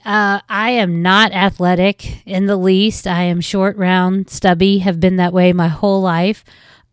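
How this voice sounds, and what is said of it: West Virginia accent. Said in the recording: “I'm from West Virginia, as you will probably be able to tell by the accent”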